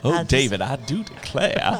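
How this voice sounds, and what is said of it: Put-on Southern American accent. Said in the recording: “We were going to do the whole broadcast in our accents ... What's your accent there? ... Yeah, you're Southern.”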